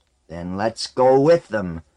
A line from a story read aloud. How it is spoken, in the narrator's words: Wold growled